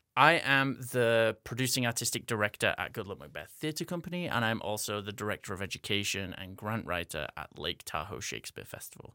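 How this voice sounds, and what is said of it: English-American hybrid accent. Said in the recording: “I am originally from England, hence having this weird American English hybrid accent that I'm talking to you in. I grew up in Northern England. So this is my talking to Americans accent”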